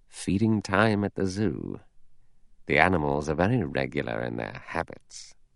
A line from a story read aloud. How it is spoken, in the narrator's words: Lombard said softly